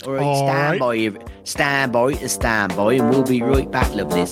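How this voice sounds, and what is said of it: Put-on Norfolk accent. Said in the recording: “I'll do a Norfolk accent.”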